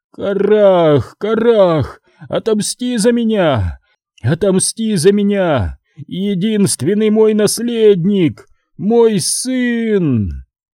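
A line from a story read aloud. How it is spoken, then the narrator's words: Wheezing rasp. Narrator (Russian): прохрипев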